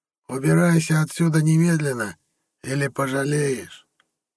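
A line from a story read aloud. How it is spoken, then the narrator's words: Hoarse old man. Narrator (Russian): захрипел старик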